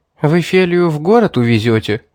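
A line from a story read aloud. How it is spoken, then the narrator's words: Sad sigh. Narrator (Russian): печально вздохнул Сурхат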